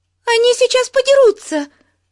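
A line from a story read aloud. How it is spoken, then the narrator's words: Piercing shriek. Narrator (Russian): пронзительно завизжала Бетси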